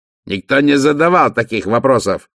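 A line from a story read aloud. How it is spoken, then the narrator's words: Barking. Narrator (Russian): рявкнул Вольф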